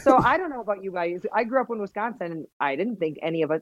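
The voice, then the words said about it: Midwestern American accent. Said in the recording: “you kept the Midwest accent ... I love a Midwest accent.”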